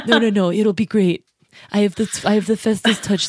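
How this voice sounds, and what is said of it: Imitates another person's voice. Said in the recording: “he fucking sounded like Trump ... That was my Trump impression.”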